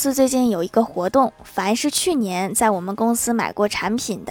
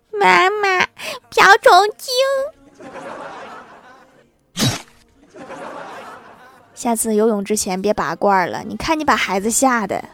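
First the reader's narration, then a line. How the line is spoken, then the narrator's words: Child crying. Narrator (Chinese): 他马上哭着对他的妈妈说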